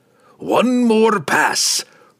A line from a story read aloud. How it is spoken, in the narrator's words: Brunner growled